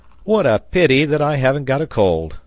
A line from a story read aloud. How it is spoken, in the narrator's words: cried Pencroft